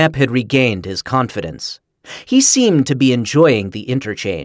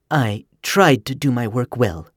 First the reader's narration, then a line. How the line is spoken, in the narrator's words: Miller murmured